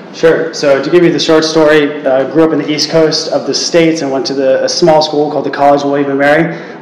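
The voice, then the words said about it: American accent. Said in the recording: “has an American accent”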